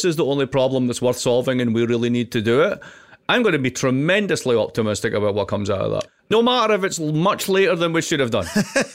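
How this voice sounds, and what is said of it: Noticeable accent. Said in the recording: “his accent”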